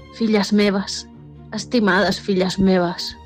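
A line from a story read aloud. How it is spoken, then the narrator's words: Sighing dragon. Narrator (Catalan): va sospirar el drac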